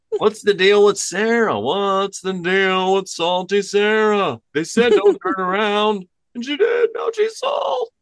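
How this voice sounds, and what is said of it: Jerry Seinfeld impression. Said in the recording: “my best Seinfeld impersonation.”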